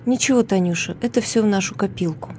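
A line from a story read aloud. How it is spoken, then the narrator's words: Soothing quiet priest. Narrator (Russian): Священник, успокаивая ее, тихо сказал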